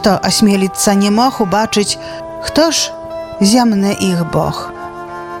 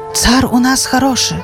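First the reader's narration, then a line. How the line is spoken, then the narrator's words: Hushed whispering nobles. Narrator (Belarusian): Прыціхлі тлустыя вельможы, шапталі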